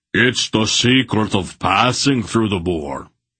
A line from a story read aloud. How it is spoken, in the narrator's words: Beric roared